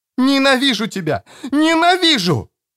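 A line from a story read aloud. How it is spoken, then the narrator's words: Screaming. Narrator (Russian): орала Эстер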